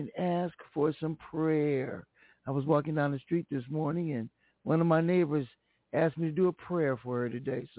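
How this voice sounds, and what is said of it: Hoarse, strained voice. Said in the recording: “Losing my voice”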